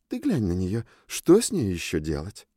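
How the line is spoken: Sighing. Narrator (Russian): Таби вздохнула

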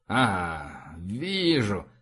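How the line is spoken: Mumble. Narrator (Russian): пробормотал

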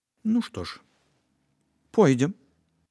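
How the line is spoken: Calm, matter-of-fact. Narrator (Belarusian): нібы гаворка ішла аб нечым звычайным, адказала спакойна

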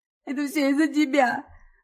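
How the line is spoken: Sobbing accusation. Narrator (Russian): Рыдая, она обвиняет отца

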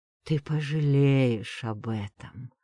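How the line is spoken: Hiss. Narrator (Russian): прошипел он

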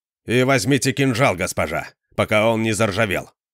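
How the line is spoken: Sharp curt remark. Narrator (Russian): резко бросил он

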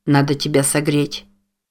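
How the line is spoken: Incoherent mumbling. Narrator (Russian): Бессвязно бормотал

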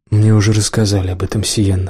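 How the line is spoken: Plain. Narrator (Russian): сказал Лэндон

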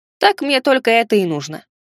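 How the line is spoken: Snorting. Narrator (Russian): хмыкнул я

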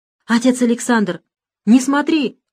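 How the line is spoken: Woman's exclamation. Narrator (Russian): воскликнула матушка

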